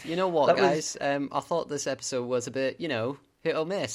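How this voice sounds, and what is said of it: Put-on Australian accent, getting worse. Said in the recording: “You do an Australian accent. ... he's still doing the accent ... It got worse the more you did it.”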